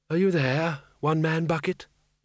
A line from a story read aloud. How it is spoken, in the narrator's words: he said softly